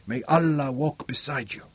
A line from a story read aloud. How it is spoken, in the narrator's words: he whispered